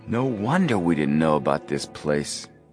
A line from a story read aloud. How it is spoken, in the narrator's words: Joe whispered